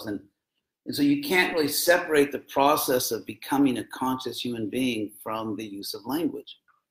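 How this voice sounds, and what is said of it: American accent. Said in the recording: “you can understand my American accent, right?”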